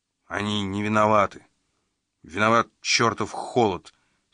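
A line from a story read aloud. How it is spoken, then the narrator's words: Angry sergeant. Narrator (Russian): сердито заявил сержант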